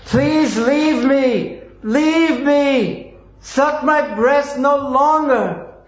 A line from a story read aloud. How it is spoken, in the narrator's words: Perspiring, her eyes wide open, she cried very loudly again and again